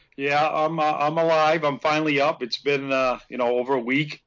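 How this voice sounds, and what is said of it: Raspy, hoarse, sick-sounding voice. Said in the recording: “You sound like shit ... I know I sound like shit ... I still have the cough, as my voice is still carries, but it's even kind of raspier”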